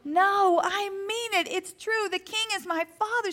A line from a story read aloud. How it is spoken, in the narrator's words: she pleaded